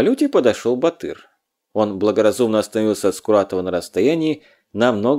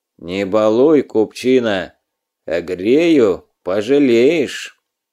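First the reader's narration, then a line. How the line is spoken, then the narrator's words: Low, muffled. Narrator (Russian): Скуратов глухо сказал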